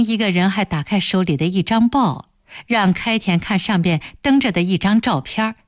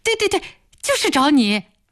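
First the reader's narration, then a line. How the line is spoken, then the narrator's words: Several people shouting. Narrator (Chinese): 那几个人便都叫起来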